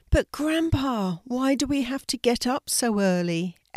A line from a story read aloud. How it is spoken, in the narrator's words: Ella asked sleepily